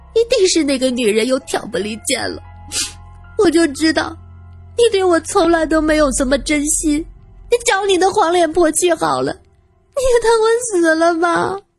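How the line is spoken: Angry sobbing scolding. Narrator (Chinese): 姐姐气得抽抽搭搭的哭，一边哭一边骂

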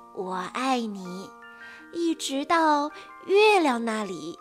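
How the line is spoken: Soft, smiling. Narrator (Chinese): 他带着微笑，轻声地说

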